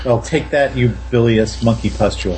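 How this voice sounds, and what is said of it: Flat, unconvinced line delivery. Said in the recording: “in an utterly unconvinced voice ... I'm supposed to have a British accent”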